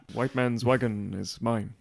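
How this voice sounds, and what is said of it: Imitated Tonto character voice. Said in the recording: “I was doing a Johnny Depp impression. ... Tonto impression.”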